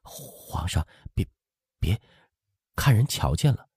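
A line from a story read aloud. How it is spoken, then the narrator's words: Shy, low voice. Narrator (Chinese): 通颈都羞红了，半晌才低声说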